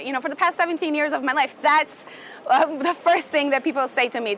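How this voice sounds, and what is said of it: Brazilian accent. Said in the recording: “as a Brazilian ... hear my accent”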